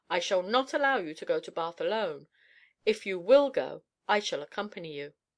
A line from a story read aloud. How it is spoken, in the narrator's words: she said firmly